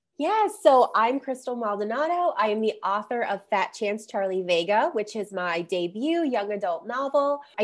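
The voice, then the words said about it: Slightly congested, off-sounding voice. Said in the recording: “I have a little bit of a cold today, so I sound a little off”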